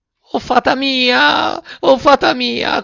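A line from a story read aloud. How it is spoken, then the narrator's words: Shrill puppet scream. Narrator (Italian): cominciò allora a strillare il burattino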